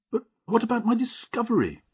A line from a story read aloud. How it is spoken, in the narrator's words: cried Mr